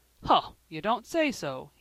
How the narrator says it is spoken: cried

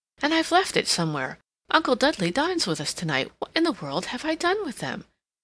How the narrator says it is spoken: she exclaimed

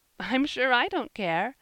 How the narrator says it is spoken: laughed Mrs

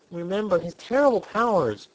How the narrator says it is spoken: pleaded

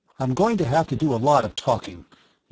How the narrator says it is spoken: he said

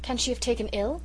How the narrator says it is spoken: exclaimed Mrs

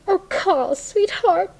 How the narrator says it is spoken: she cried

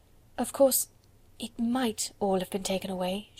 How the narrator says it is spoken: she whispered, trying to be brave

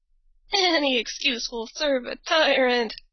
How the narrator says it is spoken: before she died, she gasped out

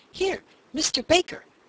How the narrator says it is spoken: the man called excitedly

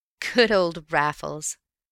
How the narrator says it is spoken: I chuckled

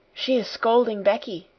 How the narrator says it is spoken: she whispered

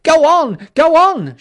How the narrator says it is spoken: shouted angry voices behind

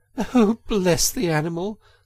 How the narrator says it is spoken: said the girl, laughing

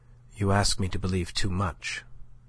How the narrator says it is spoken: said she, but her tone was softer than he had ever known it yet

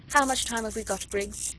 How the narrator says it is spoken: asked Lady Blakeney

